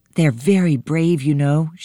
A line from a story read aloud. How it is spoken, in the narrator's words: she said